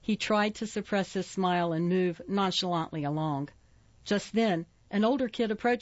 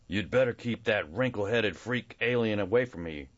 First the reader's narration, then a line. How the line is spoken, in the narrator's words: he muttered